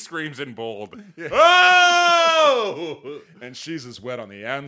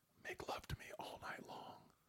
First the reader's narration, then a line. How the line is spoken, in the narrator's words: she whispered while lost in his eyes